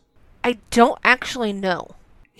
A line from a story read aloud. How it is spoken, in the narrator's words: Himiko muttered